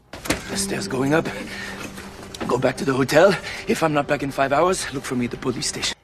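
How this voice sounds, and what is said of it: Fairly good put-on French accent. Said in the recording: “French accent ... Yeah, so this is pretty good. There are definitely things that could be improved.”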